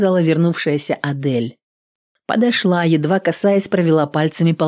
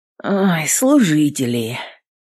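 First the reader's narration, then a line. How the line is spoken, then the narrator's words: Grumbling female warrior. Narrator (Russian): проворчала воительница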